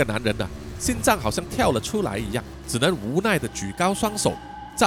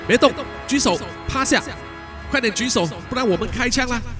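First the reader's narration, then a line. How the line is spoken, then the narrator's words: Loud shout. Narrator (Chinese): 有人大喊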